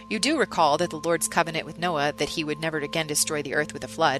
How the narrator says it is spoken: I said

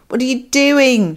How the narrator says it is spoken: screamed into the wind

